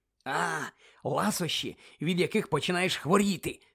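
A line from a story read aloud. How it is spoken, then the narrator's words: Whisper. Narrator (Ukrainian): зашепотів Джордж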